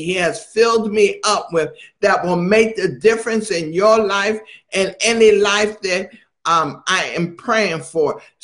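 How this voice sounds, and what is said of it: Excited, raised preaching voice. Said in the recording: “I'm excited right now, so my voice is a little elevated”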